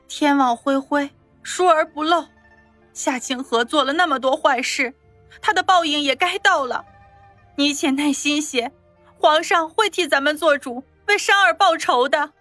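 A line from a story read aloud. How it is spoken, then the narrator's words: Choked with tears. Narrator (Chinese): 哽咽地说道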